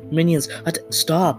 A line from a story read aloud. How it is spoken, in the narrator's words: Shrieker yells